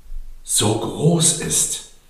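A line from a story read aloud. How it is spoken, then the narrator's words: Plain. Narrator (German): sagte sie schließlich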